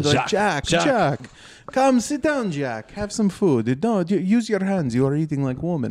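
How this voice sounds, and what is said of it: Imitated Armenian accent. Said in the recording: “I don't know if this is how Armenian sounds ... That's how I do the voice”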